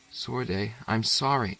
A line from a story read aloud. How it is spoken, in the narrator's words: Tears started into the boy's eyes, and he whispered